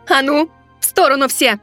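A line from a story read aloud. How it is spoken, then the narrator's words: Barked in fox's voice. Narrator (Russian): Голосом лисицы рявкнула темнота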